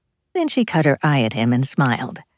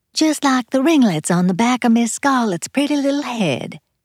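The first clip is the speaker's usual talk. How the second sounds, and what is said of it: Terrible put-on southern accent. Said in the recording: “she said in a terrible southern accent.”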